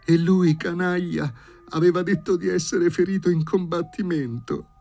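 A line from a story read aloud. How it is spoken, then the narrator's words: Young woman sobbing. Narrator (Italian): singhiozzava la signorina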